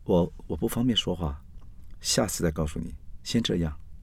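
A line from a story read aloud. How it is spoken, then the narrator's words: Lowered voice on phone. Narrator (Chinese): 刘云在电话里面压低声音说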